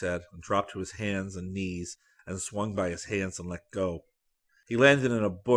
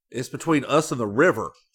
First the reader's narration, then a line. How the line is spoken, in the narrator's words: Scotty exclaimed